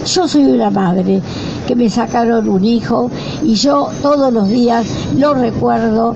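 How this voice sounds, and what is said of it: Hoarse, strained voice. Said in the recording (Spanish): “¿Se escucha? Bueno, porque a veces estoy afónica, pero tengo ganas de gritar”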